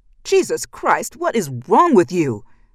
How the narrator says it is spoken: Ben shouted

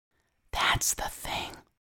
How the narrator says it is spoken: Lucy whispers, leaning so close that Amada can feel her breath against her ear

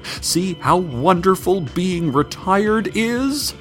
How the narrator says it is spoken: she shouted behind her as she sprinted away, smoke-fueled tears streaming

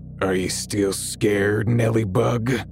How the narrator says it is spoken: In the same deep, gravelly voice, he said

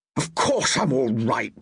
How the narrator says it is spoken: he growled

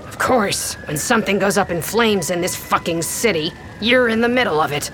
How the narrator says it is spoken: Snarling

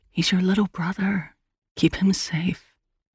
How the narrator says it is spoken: The voice in the back of her head whispered

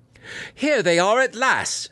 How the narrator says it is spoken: she cried

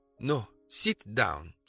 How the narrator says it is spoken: she said firmly

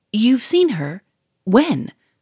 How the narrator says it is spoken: cried Monsieur Fourmery

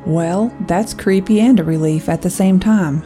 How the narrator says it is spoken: Jace laughed

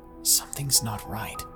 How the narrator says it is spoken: I finally whispered

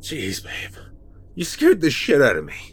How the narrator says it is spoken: I said, beginning to laugh

